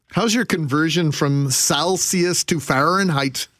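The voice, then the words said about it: Deliberately poor Minnesota accent. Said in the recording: “worst Minnesota accent”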